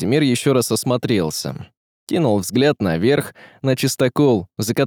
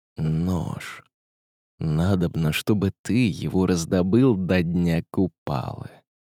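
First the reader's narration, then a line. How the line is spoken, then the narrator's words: Whisper in ear. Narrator (Russian): сказал на ухо шепотом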